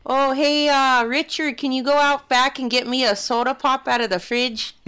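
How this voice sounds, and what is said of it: Put-on Midwestern accent. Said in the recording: “Midwest, maybe. ... Picked it up from my grandma.”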